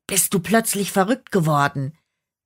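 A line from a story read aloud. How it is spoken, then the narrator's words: Hissed. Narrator (German): zischte der Teufel den Hirten an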